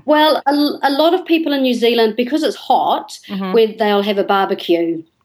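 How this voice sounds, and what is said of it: New Zealand accent. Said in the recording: “is it my accent? ... What's your New Zealand thing?”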